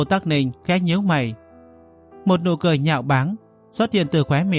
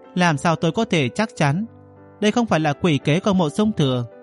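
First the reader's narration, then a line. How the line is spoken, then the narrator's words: Cold, sarcastic. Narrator (Vietnamese): Giọng nói của Mộ Tắc Ninh lạnh lùng mỉa mai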